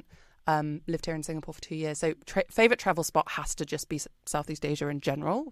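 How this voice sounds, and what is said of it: British English accent. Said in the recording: “I'm British, if you can't tell from my accent.”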